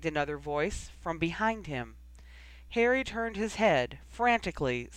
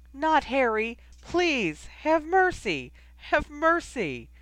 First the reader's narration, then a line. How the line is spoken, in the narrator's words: There was a sickening scream